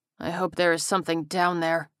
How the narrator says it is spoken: the corporal muttered

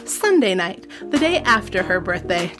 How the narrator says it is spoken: Jessica said happily

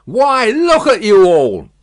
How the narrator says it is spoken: bawled this figure

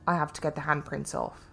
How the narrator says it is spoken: She replied, rather flatly

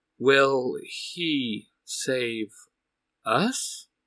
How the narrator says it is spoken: Eric slowly says

